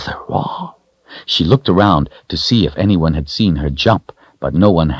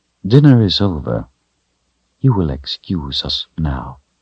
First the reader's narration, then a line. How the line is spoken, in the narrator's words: said in a soft voice